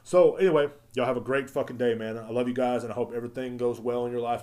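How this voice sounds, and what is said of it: Hoarse, strained voice. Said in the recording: “I'm sorry for yelling so much. I'm losing my fucking voice now.”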